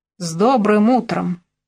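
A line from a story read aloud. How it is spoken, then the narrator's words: Slightly aggressive grumble. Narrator (Russian): чуть агрессивно пробурчала Мелина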